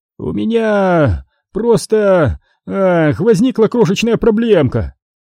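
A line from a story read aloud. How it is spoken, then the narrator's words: Nervous babbling. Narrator (Russian): пролепетал Диди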